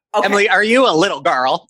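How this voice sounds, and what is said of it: Imitates another person's voice. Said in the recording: “That's actually a pretty good Mary impression right there.”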